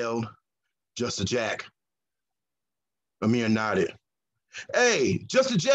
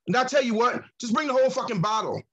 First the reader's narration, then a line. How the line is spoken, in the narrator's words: he yelled